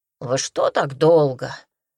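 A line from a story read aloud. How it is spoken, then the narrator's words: Grumbling. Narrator (Russian): заворчал Ханум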